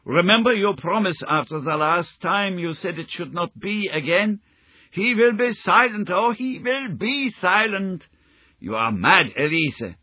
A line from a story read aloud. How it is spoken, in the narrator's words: he shouted, struggling to break away from her